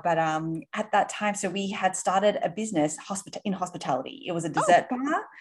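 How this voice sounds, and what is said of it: Australian English accent. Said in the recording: “You might be able to tell from my accent, are actually from Australia originally... Grew up in Sydney.”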